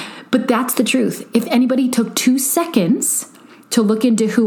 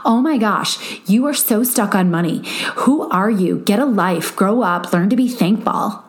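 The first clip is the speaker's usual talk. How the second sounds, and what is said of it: Snotty Valley girl voice. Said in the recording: “my snotty Valley girl voice”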